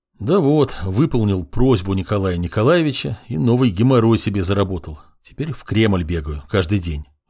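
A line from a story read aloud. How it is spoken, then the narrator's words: Sighed. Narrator (Russian): вздохнул я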